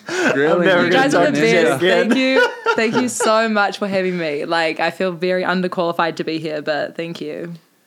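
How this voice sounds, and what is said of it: New Zealand accent. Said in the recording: “you have the best accent. ... The best Kiwi to come on.”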